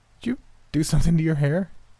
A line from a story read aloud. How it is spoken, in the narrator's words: couldn't help but laugh, my smile being so big it nearly hurt my face